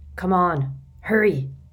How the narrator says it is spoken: growled Moody

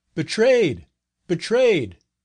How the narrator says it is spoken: he shouted to his companions

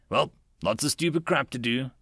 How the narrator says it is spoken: Trucker grunted

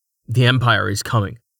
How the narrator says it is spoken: Rain said in a clipped tone

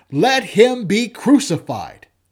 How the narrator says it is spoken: they cried out exceedingly, saying

